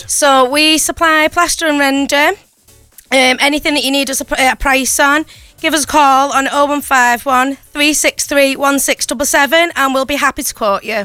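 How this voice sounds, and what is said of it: Strong St. Helens English accent. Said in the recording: “Oh, what an accent this is, by the way... This has got to be St. Helens, is it?... she's not just from St. Helens, she's from Sint... Sint Helens... We love your accent.”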